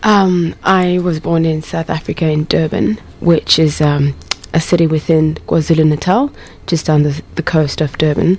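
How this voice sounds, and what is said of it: South African accent, slightly Australian-sounding. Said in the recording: “my accent is changing slightly and I'm starting to sound Australian”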